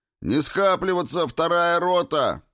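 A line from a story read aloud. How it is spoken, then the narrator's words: Barking shout. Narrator (Russian): гаркнул Федор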